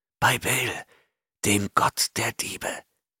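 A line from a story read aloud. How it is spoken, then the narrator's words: Hissed. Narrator (German): zischte Taurus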